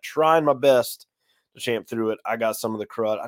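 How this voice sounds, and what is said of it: Sick, rough voice with throat clearing. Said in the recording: “under the weather. You could probably hear it in my voice ... There is my throat clear.”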